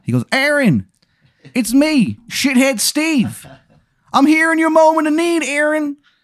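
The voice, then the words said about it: Bad put-on Maryland accent. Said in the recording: “the worst Maryland accent you've ever heard in your life.”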